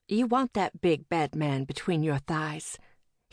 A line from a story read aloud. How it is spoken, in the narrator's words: he added in a whisper